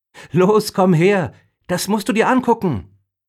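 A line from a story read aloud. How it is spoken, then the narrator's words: Calling out. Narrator (German): rief Emma ihm entgegen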